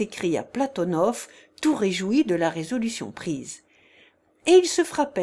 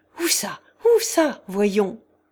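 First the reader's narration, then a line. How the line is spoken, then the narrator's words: Startled, just-woken exclamation. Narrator (French): s'écria leur hôte en s'éveillant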